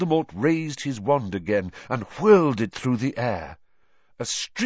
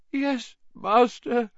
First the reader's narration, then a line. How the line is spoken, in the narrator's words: moaned Wormtail